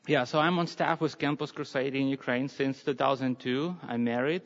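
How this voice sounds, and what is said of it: Slavic accent. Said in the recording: “my Slavic accent is kind of strange”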